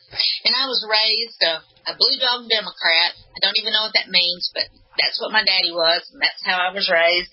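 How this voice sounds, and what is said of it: Southern US Alabama accent. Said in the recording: “I'm from Alabama, if you can't tell with my accent.”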